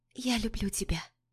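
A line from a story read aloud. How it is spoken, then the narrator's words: Tender whisper. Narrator (Russian): нежный шепот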